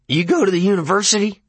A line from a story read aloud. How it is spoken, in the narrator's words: LeBay barked suddenly